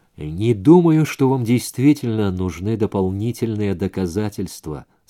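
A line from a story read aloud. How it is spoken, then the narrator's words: Plain. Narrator (Russian): сказала Джонни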